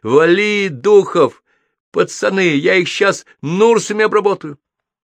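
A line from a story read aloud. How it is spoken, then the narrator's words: Shouting. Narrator (Russian): командир экипажа заорал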